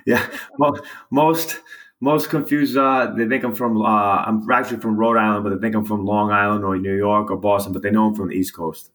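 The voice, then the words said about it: American Northeast accent. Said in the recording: “I hear your Northeast accent. It's so funny.”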